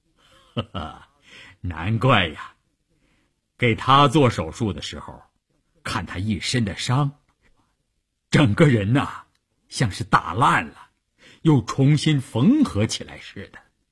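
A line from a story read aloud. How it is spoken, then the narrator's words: Laughing. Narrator (Chinese): 医生笑着说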